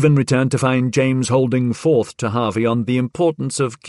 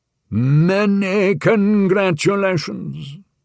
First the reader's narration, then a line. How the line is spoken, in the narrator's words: bellowed James